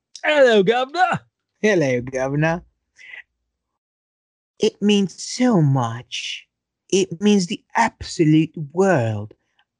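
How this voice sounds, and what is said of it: Put-on British accent. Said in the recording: “let me do it in a British accent.”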